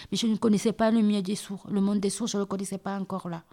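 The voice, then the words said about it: Southern French accent. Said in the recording (French): “Tu parles français avec un accent du sud? ... Oui”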